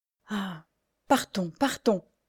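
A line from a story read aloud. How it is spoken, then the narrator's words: Murmur. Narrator (French): murmura-t-elle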